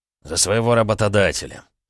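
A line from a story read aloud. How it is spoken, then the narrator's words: Calm. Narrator (Russian): спокойно ответил Олег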